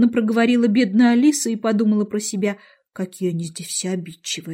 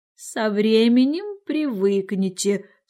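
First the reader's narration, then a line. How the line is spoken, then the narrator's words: Calm speech. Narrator (Russian): спокойно сказала гусеница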